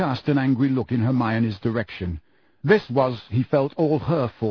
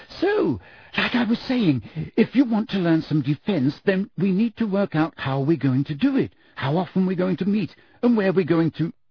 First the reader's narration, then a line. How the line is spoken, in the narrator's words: said Hermione, her voice very high-pitched again